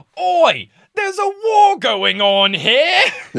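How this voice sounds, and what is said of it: Impression of Harry Potter. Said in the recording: “That was a great Harry impression.”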